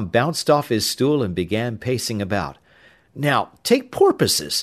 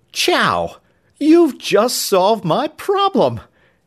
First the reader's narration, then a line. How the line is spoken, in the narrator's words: he exclaimed